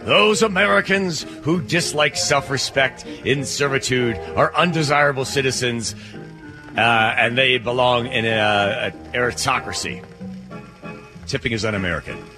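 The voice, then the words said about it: Reads aloud in a weird voice. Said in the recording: “I put on a weird voice.”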